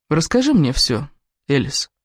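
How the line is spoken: Soft but firm. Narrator (Russian): мягко, но непреклонно сказал Кевин

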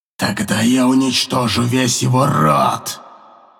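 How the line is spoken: Angry growl. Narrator (Russian): зло прорычал он

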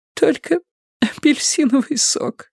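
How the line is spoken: Sobbing. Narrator (Russian): всхлипнула она

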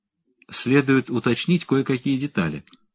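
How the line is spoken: Calm objection. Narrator (Russian): спокойно возразил Мендел

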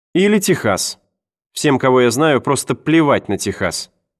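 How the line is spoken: Plain. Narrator (Russian): сказала Энн

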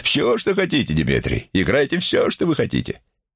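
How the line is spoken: Joyful naive declaration. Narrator (Russian): Губернатор радостно и наивно заявил

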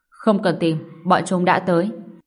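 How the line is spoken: Cold. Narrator (Vietnamese): giáo hoàng động đầu tiên, lạnh lùng nói

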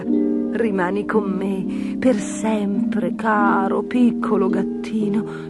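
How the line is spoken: Lady whispering. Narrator (Italian): sussurrò la dama

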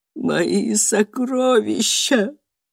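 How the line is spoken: Whimpering. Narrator (Russian): прохныкала она

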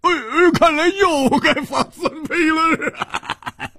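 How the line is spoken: Laughing. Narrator (Chinese): 胡铁花笑着说

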